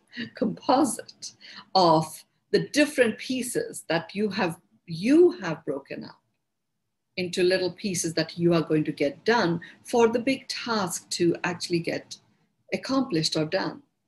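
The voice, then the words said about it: Indian English accent. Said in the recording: “my Indian accent.”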